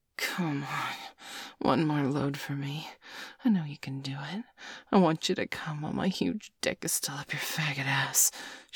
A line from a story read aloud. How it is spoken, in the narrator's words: she hissed